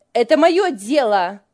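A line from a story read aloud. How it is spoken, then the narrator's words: Angry snap. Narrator (Russian): сердито бросила Лиля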